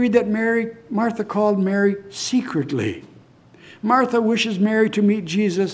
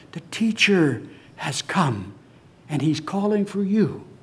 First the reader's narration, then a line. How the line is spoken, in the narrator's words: Martha whispers in her ear